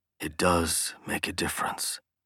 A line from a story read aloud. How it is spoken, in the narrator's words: he whispered to her